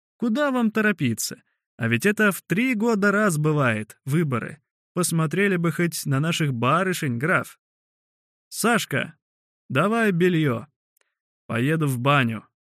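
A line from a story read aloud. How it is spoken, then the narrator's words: Plain. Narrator (Russian): сказал граф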